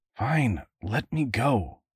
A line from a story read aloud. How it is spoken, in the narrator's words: Woodrow muttered